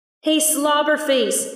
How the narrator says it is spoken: Nix yelled

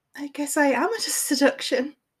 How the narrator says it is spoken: she said breathlessly

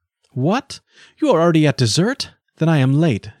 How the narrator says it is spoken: exclaimed, with a winsome naivety

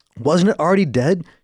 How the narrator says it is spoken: asked through panting breaths

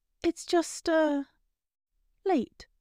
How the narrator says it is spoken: she said feebly

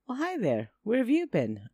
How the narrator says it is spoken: asked as brightly as I could

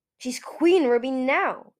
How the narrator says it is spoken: Eagle snapped

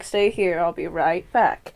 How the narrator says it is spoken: She sighs

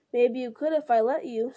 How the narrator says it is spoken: said Pippin with a laugh

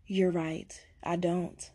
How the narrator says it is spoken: Day replied

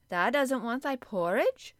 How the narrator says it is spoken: Martha exclaimed incredulously

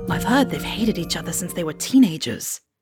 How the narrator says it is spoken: James Potter whispered

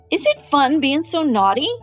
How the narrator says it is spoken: Evan said in a very loud voice

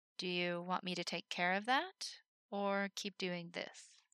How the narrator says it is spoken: she said slowly

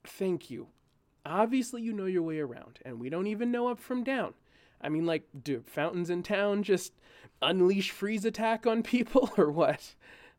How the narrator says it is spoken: said with an awkward laugh

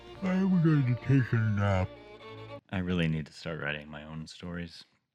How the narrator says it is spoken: he yawned, until he finally said

